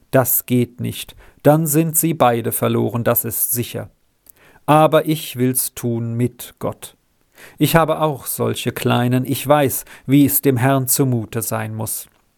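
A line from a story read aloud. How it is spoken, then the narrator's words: Calm. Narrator (German): sagte ruhig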